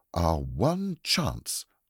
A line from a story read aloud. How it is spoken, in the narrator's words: cried Anthea dramatically